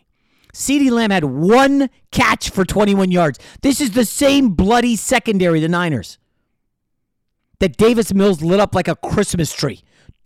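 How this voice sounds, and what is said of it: Fired-up yelling. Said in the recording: “I'm fired up. I'm yelling.”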